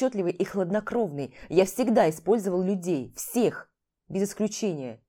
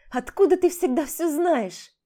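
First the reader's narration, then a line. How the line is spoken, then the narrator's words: Bitter exclamation. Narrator (Russian): Горько воскликнула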